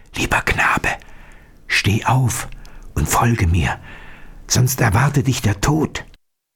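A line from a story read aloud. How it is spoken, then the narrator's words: Whispered to him. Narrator (German): flüsterte ihm zu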